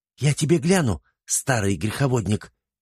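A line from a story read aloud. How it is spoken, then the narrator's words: Angry hiss. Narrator (Russian): зашипела Верак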